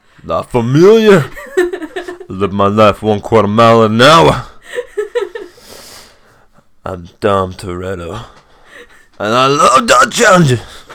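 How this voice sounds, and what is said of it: Imitates another person's voice. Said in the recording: “I've spent like a week working on my Vin Diesel accent.”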